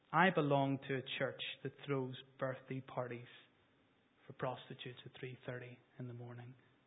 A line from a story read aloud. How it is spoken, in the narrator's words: he answered the man quietly